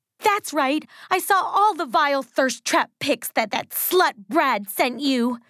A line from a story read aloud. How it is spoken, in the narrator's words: she screamed